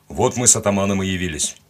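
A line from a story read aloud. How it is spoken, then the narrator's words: Cold reply from outside. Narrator (Russian): холодно ответили снаружи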